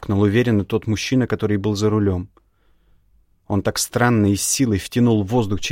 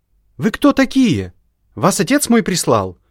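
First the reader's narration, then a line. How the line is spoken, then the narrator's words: Shouting. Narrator (Russian): крикнула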